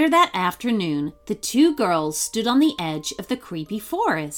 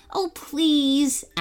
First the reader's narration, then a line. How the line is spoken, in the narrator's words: Abigail begged her friend